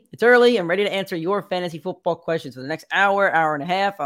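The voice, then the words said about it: Slightly odd, sick-sounding voice. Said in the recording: “if I sound a little weird at the moment ... I have a cough drop in my mouth. I've caught something”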